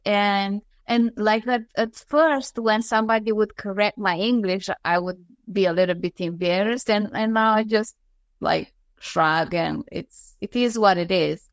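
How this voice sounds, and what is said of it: Non-native English accent. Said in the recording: “I love your accent personally. I think it's so beautiful.”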